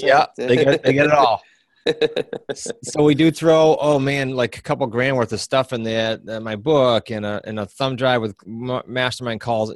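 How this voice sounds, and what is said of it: Rhode Island accent. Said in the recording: “the accent, the Rhode Island accent”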